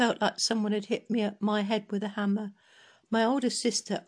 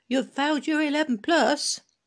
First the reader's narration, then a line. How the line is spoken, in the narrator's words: My mother called out